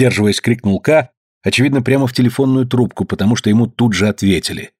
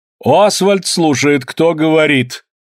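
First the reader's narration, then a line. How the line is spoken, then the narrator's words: Stern, haughty shout. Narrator (Russian): крикнул строгий надменный голос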